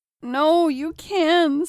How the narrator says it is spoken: sobbed John

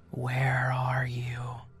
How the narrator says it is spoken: they whispered

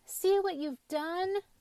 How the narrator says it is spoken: cried Anton

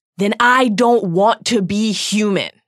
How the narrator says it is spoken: Harry roared

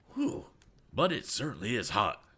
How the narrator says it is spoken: exclaimed Mr

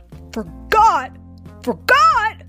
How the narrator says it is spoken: roared Papa

